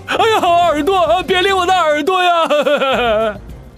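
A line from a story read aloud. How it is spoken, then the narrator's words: Pig-like howling. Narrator (Chinese): 小龙杀猪般的嚎叫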